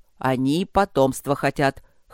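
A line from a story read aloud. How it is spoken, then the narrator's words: Smirking. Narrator (Russian): хмыкнул друг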